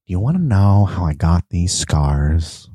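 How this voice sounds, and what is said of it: Imitates the Joker, not quite creepy. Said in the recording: “I'm not doing the voice, but I could do the voice ... Not as creepy ... It's not quite there ... Almost got it”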